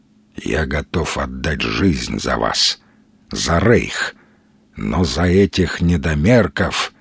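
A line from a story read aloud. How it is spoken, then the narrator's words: Quiet. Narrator (Russian): тихо произнес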